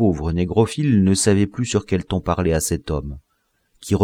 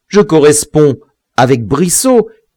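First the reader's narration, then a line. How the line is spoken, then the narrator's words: Sneering interruption. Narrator (French): Biassou l'interrompit en ricanant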